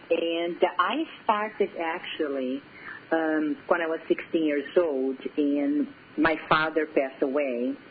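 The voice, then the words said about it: Brazilian accent. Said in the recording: “my accent is from Brazil”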